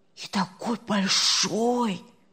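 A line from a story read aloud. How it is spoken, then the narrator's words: Whispering. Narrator (Russian): Зашептали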